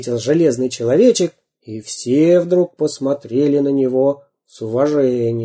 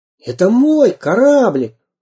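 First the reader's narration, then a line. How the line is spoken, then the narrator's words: Exclaiming. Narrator (Russian): воскликнул Самоделкин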